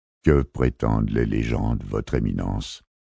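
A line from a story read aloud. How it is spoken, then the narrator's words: Calm argument. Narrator (French): argumenta calmement Xafox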